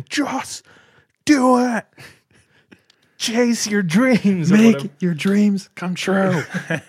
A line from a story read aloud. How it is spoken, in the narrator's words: Shia LaBeouf, just like roiding out, screaming